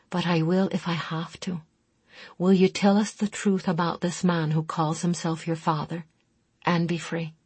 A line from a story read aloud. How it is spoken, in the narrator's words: Talia told her in a soft voice no one else could hear